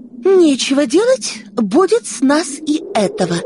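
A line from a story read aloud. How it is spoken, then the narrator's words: Babbling. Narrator (Russian): лепетала Оксана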